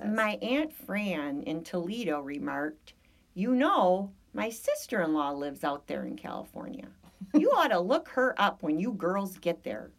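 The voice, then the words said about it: Put-on Michigan accent. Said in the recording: “I can turn on my Michigan accent.”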